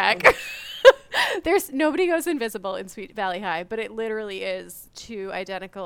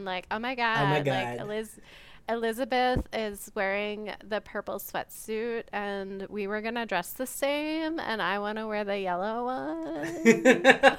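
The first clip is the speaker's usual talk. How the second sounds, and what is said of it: Exaggerated valley girl character voice. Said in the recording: “That's my Sweet Valley High voice.”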